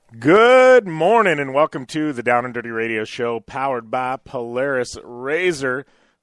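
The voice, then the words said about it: Slightly scratchy voice. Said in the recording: “my voice is a little scratchy today. I'm coming back from a cold.”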